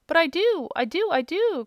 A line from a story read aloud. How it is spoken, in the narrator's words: cried the little man, interrupting him